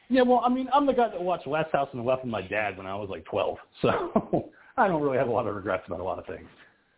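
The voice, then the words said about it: Congested voice from a cold. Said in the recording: “I'm very sick. I have a cold. I'm going to have to go blow my nose”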